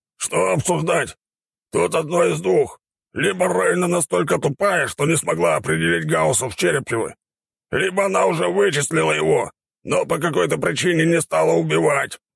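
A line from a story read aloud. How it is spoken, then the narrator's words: Growling boar. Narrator (Russian): прорычал кабан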